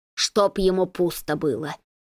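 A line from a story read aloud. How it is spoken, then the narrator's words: Muttering under breath. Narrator (Russian): бормочет под нос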